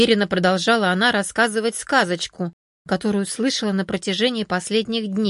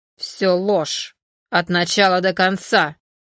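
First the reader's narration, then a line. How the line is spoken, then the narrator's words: Angry hiss. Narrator (Russian): сердито прошипел вожак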